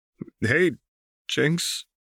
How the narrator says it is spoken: Vi said weakly

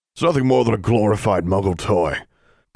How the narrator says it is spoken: grumbled a fat, bearded wizard

